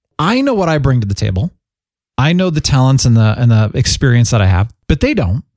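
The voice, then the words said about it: Good radio voice. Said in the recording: “You've got a good radio voice”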